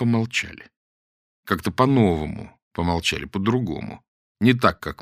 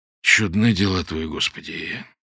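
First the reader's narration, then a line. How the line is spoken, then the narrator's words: Grumbled. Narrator (Russian): буркнул он наконец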